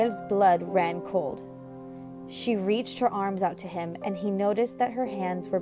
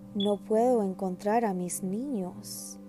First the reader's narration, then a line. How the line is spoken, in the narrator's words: she said in a small voice